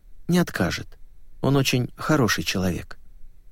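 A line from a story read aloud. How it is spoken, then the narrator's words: Quiet, displeased. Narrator (Russian): Светловолосая, которой, судя по всему, не понравилось упоминание о пристрастиях тренера, сказала тихо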